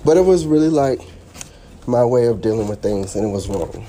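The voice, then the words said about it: Out of breath. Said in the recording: “I'm walking upstairs. Out of breath.”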